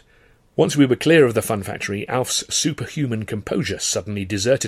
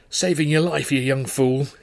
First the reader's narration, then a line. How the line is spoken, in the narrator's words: he gasped